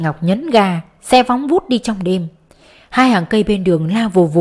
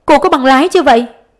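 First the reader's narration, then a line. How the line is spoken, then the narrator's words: Shouting. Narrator (Vietnamese): Giáo sư la lên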